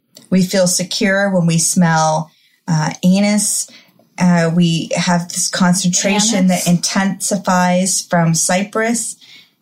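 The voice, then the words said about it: Midwestern accent, noticeable in vowels. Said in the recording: “your beautiful Midwestern accent ... My accent comes out in my A's and my O's.”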